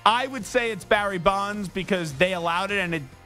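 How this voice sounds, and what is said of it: Usual voice. Nothing is said of it.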